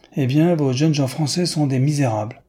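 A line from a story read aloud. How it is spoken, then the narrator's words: Exclaimed. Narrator (French): s'écria Newman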